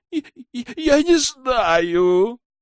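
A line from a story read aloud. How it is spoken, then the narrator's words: Terrified sob. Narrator (Russian): всхлипнул Гашил, продолжая с ужасом смотреть на нарушителя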